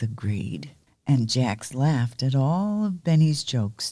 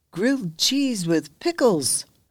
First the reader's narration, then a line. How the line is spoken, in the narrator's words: Benny exclaimed